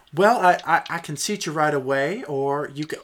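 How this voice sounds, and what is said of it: Put-on Southern US accent. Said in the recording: “I almost slipped into a southern accent for that... I guess I am just going to be with a southern accent.”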